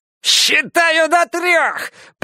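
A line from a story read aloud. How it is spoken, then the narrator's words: Shrieking. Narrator (Russian): провизжал Фариш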